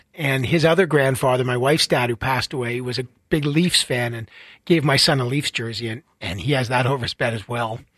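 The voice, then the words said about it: Teary, emotional voice. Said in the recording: “getting teary. ... It's hitting me hard. ... I can hear it. I can hear it.”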